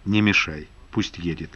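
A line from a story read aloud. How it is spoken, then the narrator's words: Quiet request. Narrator (Russian): тихо попросил Зимин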